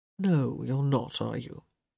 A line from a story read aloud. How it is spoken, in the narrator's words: He murmured